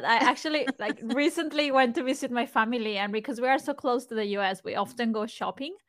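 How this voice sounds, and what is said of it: Australian accent. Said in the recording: “you sound like you have an Australian accent”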